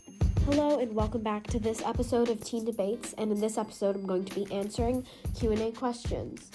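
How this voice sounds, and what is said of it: Congested, stuffy-sounding voice. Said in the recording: “my voice sounds a little bit congested, um, I'm a little bit under the weather”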